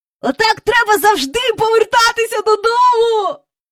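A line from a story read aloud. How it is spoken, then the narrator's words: Twins squealing. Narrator (Ukrainian): верещали близнята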